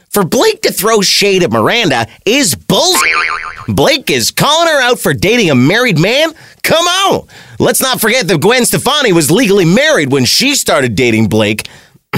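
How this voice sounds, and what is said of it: Imitates another person's voice. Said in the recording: “That's my impression of Miranda's friends. My apologies if it sounds nothing like her.”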